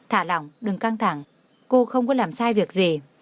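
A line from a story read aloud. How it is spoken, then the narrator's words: Smiling, reassuring. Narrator (Vietnamese): Tưởng Thiên Lỗi lại mỉm cười nói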